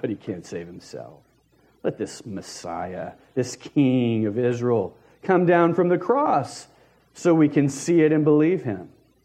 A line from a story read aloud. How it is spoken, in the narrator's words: they scoffed